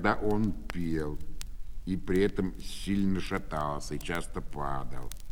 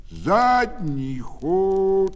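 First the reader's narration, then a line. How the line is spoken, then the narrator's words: Shouting after her. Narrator (Russian): Когда она забегала далеко вперед, то он кричал ей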